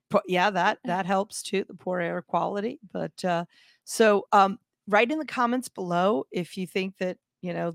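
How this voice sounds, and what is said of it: Husky, hoarse voice. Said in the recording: “sexy voice today because allergies have me coughing ... the voice is super sexy”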